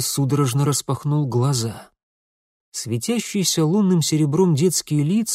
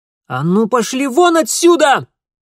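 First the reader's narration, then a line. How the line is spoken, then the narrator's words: Sudden furious ringing girl's shout. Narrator (Russian): вдруг яростно и звонко выкрикнул девчоночий голос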